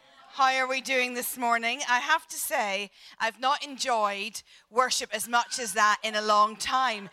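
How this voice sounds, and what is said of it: Irish accent. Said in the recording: “this is not a Scottish accent. And the uh, savvy amongst you will know that this is is an Irish accent.”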